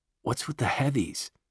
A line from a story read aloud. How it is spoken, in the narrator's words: Jesus whispers to Claire